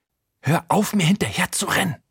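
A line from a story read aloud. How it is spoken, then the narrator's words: Hissed. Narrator (German): zischt sie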